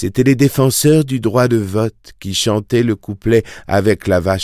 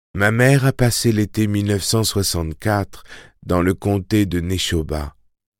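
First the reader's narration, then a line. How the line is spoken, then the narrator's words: Plain. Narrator (French): répondit Susanna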